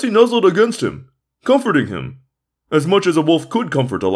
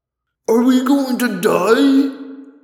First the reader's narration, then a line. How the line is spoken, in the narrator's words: David wailed